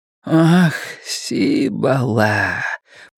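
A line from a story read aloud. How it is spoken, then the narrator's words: Purr. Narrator (Russian): промурлыкал он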